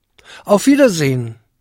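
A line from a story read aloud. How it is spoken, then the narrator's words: Calling after, trembling. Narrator (German): rief Jakob ihm mit blassem Gesicht und zitternden Lippen nach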